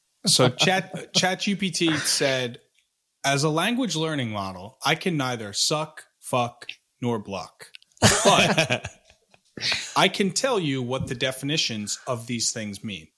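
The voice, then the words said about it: Imitates ChatGPT AI voice. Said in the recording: “That was a pretty good ChatGPT impression.”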